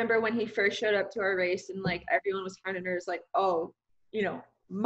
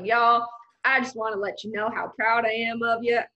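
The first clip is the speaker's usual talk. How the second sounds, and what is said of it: Imitated Southern drawl. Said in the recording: “That accent ... do I really sound that Southern? ... Southern draw”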